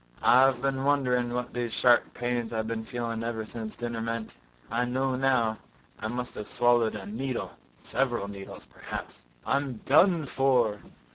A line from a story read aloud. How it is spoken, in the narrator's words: he groaned